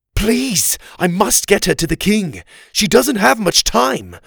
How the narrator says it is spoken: Oliver pleaded

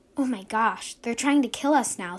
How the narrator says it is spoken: said May, in a worried voice

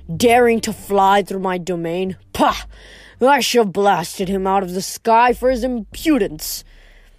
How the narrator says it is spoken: Zeus grumbled

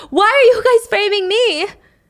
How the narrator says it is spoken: Mimi screams

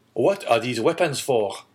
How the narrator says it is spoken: exclaimed the young man

